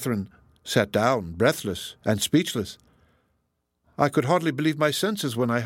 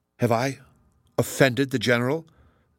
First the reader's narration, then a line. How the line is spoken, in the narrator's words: said Catherine in a faltering voice